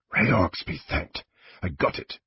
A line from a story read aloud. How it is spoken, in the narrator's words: he whispered